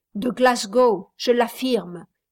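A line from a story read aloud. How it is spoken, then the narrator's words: Plain. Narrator (French): dit Martial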